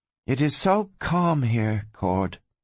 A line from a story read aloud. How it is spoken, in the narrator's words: the girl murmured